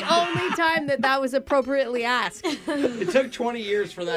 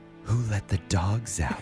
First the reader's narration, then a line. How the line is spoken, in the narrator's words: whispered ever so gently in your ear